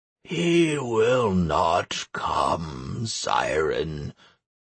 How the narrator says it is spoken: croaked the goblin

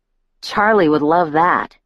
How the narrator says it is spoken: I said sarcastically

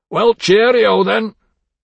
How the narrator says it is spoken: said loudly over Chuffy's barking

